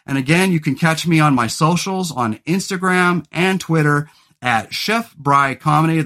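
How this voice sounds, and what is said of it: Loud announcer-style radio voice. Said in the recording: “I feel like I'm breaking into my radio voice ... A little bit ... I'm overly loud today. Too much caffeine.”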